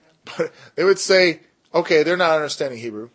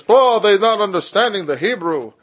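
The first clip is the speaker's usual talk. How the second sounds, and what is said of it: Poorly done put-on accent. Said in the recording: “Sorry, bad accent, sorry. I won't do that again.”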